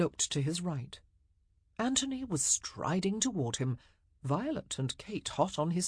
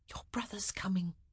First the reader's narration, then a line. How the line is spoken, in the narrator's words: she whispered